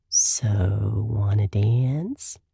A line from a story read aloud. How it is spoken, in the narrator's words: He drawls